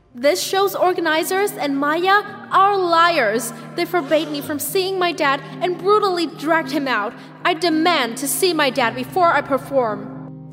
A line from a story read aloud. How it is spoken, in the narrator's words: I said loudly in front of everyone